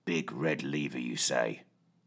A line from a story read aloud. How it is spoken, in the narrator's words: He growled